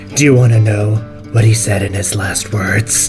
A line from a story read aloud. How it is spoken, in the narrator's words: Heartlock is just going to smile menacingly in Tiberius and say